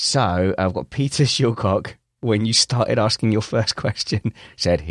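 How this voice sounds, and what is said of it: Usual voice. Nothing is said of it.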